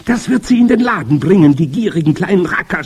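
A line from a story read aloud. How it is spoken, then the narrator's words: Crowd shouting. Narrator (German): schrie das Publikum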